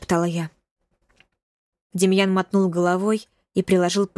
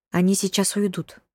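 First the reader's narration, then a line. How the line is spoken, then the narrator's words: Quiet reply. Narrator (Russian): тихо сказал он мне в ответ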